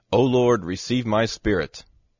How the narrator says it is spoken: he cried with a loud voice

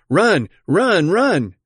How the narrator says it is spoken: shouting

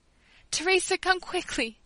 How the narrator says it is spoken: cried, with my eyes full of tears

